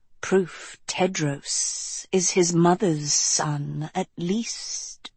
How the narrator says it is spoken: rasped Omida

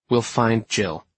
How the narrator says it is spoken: I said more firmly

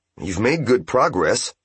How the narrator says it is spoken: Seki said

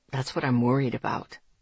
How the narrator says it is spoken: he said quietly

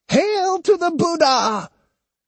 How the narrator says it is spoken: She ... cried

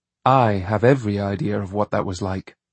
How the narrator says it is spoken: said John coolly

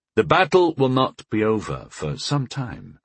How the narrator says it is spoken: I reminded her gently

